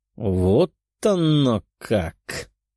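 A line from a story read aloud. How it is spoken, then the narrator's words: Angry hiss, young man. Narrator (Russian): прошипел от злости парень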